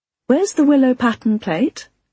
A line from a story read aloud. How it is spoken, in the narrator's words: I asked, trying to make my voice sound casual